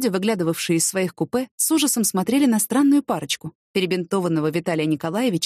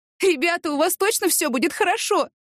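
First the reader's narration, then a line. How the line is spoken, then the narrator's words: Tearful shout. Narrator (Russian): крикнула им вслед Ася, все еще обливаясь слезами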